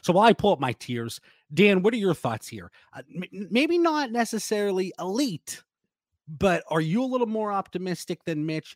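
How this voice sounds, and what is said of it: Slightly scratchy, hoarse voice. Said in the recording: “My voice is still a little scratchy ... I can't kick this cough”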